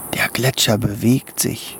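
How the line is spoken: Whispered. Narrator (German): flüsterte Tommy

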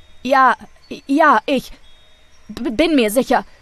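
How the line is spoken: Stammering. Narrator (German): stammelte Rolf

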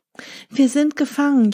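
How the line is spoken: Wailing. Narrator (German): jammerten sie

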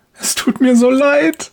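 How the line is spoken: Woman sobbing. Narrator (German): schluchzt die Frau

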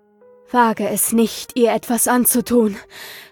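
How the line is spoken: Panting with fear. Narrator (German): keuchte ich vor Angst

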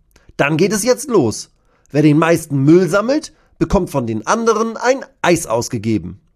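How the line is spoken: Calling out. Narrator (German): ruft Bascho

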